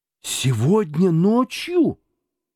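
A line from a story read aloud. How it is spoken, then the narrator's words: Exclaiming. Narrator (Russian): воскликнул Скрудж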